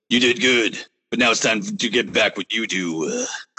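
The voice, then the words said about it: Imitates another person's voice. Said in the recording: “my Triple H impression.”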